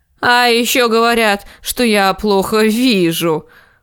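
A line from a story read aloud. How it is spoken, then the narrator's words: Snorting. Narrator (Russian): фыркнул лорд Уолдер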